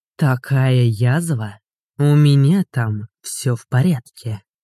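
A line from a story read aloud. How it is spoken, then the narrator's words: Clipped emphatic. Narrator (Russian): отчеканил он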